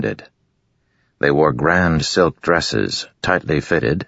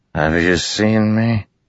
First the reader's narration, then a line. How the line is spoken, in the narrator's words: asked with slurred speech